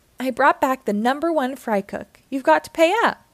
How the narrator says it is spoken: cried Squidward with delight

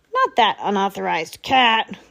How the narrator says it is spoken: grumbled the commander

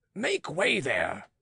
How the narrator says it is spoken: too roughly, but Pitou tempered it with so polite a

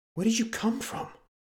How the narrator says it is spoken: He gasped

